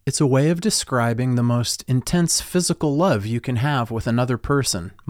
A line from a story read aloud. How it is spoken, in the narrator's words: Mom calmly explained